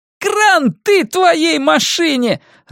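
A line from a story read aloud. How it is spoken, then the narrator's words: Gleeful yell. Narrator (Russian): радостно вопит Пат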